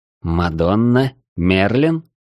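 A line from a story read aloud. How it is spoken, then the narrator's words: Uncertain listing. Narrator (Russian): неуверенно перечислял я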